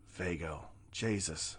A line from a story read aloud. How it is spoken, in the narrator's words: whispered to herself